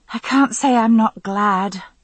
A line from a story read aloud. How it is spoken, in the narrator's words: I sighed